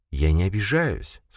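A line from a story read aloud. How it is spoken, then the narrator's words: Soft. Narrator (Russian): сказала Мариника мягко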